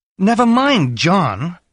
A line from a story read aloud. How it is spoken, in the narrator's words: she cried